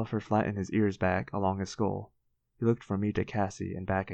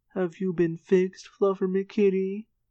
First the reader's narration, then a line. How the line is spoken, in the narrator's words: I cooed